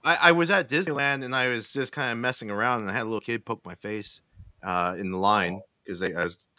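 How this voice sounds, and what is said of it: Usual voice. Nothing is said of it.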